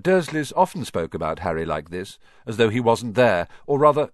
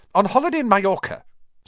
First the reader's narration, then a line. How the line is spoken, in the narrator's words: snapped Aunt Petunia